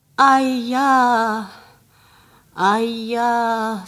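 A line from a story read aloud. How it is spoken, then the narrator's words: Old man moaning. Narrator (Russian): стонал старик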